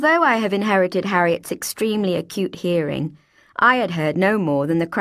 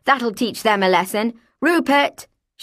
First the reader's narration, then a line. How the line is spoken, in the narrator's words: she called out loudly